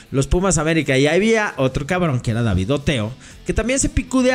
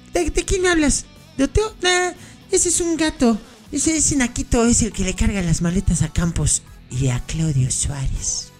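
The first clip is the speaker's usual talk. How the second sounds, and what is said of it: Imitates another person's voice. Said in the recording (Spanish): “imitación de Cuauh”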